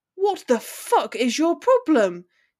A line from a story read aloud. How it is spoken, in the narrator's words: he spat furiously